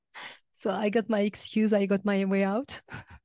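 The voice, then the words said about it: Voice sounds strained, not normal. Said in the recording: “as you can hear, my voice is not the best today ... when my voice is back to normal”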